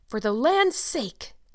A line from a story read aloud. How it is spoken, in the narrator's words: gasped Marilla